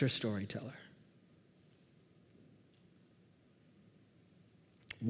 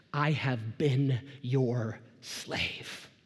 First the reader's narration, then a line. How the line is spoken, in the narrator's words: the older son, the Pharisee, bitterly exhales